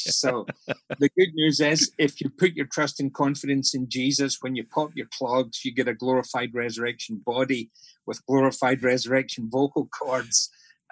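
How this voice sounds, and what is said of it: Scottish accent. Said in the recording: “you've got a wonderful Scottish accent ... that's why I speak with a Scottish accent.”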